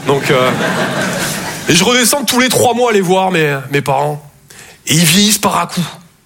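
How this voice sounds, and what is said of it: Southern French Toulouse accent. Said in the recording (French): “Je viens de Toulouse à la base. Ouais, ça s'entend un peu. ... mon accent”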